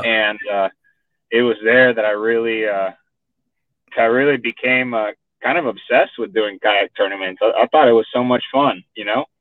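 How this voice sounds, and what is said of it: Strong Texan accent. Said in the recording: “you picked up that Texan accent real quick, man. You sound full-blooded Texan here.”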